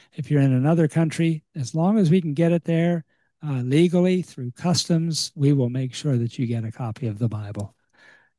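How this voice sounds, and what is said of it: Weak, strained voice. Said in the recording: “my voice is a little weak here this evening for some reason”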